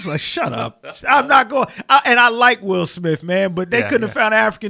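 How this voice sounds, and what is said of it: Usual voice. Nothing is said of it.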